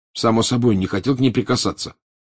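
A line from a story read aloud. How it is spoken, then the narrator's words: Angry. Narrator (Russian): сердито сказал Гарри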